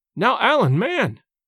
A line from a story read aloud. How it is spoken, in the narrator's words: cried James